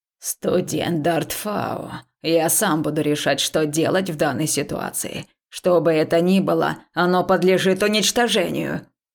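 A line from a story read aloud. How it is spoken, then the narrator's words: Madman's hoarse rasp. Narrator (Russian): Прохрипел сумасшедший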